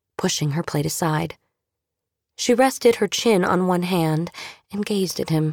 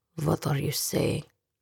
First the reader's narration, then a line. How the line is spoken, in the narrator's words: Sasha asked in a low voice